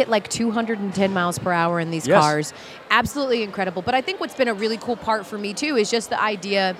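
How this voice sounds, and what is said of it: Usual voice. Nothing is said of it.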